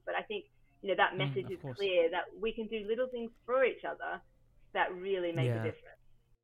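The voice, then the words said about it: Australian accent. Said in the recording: “your Australian accent kicked in, and it's always very different”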